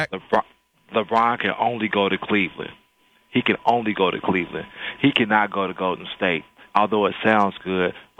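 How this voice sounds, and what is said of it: Polished radio announcer voice. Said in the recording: “I hear your radio voice, man. Very nice.”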